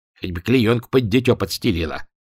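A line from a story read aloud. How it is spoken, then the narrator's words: Grumbling while walking. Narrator (Russian): проворчал на ходу Гладышев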